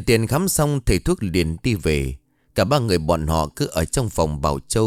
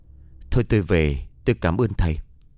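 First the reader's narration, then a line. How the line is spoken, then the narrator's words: Gentle, soft. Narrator (Vietnamese): Bà Tâm An nói nhẹ nhàng với thầy thuốc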